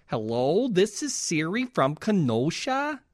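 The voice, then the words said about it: Put-on Wisconsin regional accent. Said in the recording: “That was my Kenosha accent.”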